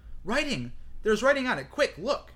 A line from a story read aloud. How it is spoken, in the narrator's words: Hermione cried out